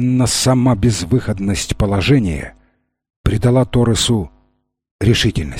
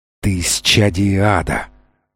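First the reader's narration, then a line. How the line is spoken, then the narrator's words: Furious trembling hiss. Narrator (Russian): злобно шипел он, трясясь от ярости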